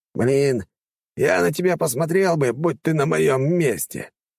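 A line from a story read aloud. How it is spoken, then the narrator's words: Grumbling. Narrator (Russian): проворчал Квазик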